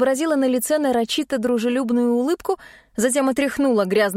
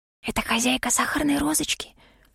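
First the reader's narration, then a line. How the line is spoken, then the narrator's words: Whisper. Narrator (Russian): шепнула Шерри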